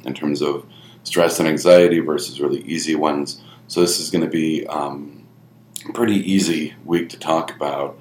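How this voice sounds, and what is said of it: Slightly congested, sniffly voice. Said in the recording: “you can probably tell by my voice, I'm still sniffling a little bit ... little residual um, congestion”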